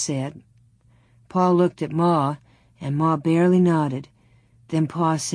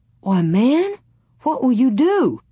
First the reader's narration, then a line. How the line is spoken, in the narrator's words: Pa exclaimed